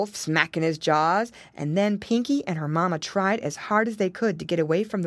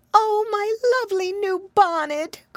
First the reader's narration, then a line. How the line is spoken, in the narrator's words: cried Mrs